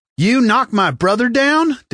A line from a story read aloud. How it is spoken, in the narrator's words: Deck hollered at Joe